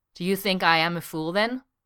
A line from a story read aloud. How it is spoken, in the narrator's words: Eska says